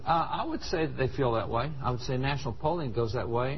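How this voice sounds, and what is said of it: Gooey accent. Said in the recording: “do you hear the gooey accent?”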